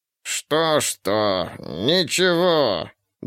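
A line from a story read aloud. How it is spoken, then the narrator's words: Nasal voice. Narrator (Russian): Голос был гнусавым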